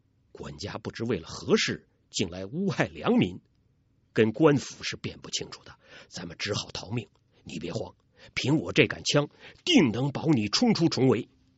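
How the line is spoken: Low voice. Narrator (Chinese): 杨铁心低声说

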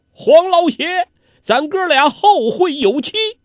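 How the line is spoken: Calling out. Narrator (Chinese): 欧阳锋嘴里叫道

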